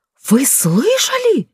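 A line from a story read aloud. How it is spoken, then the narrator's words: Wailing. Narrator (Russian): взвыла она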